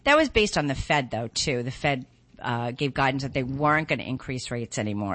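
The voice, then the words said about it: Scratchy, slightly nasal voice. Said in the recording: “my voice is a little bit scratchy ... my voice is a little scratchy today ... I could feel it like in my nose, nasally”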